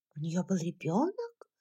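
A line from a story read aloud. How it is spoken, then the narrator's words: Whisper into ear. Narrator (Russian): прошептала Скарлетт на ухо Кэтлин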